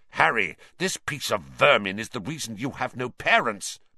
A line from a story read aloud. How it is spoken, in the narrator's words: Black snarled